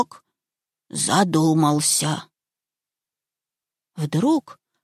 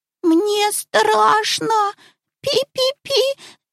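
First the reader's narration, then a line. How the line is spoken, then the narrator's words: Frightened squeak, mouse. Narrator (Russian): запищал мышонок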